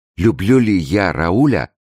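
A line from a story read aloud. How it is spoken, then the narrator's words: Exclaiming. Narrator (Russian): воскликнула она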